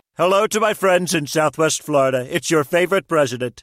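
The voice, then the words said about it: Celebrity voice impersonation of president. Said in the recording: “Celebrity voice impersonation.”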